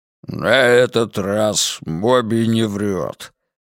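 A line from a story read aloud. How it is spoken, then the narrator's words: Growled. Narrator (Russian): рыкнул он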